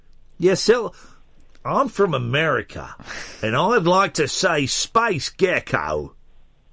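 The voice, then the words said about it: Attempted American accent sounding Australian. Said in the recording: “Can't you do an American accent? ... you've got to do it in an American accent ... Oh, that's Australian.”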